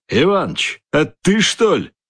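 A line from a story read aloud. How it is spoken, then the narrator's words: Exclaimed. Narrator (Russian): воскликнул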